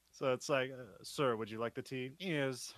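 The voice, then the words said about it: Posh British accent. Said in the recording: “a fun trick to doing a British accent, at least for one word. to do a posh, or at least do one word of a posh British accent,”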